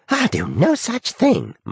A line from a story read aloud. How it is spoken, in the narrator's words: Marvie screeched